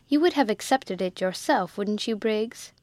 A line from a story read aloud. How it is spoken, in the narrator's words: Miss Crawley said kindly